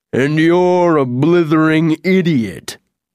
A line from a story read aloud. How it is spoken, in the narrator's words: boomed the good-natured old oak